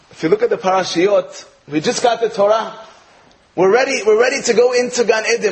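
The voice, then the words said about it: American accent. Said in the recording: “I'm from America, as you can tell from my accent”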